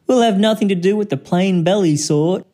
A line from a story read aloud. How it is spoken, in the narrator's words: With their snots in the air, they would sniff and they'd snort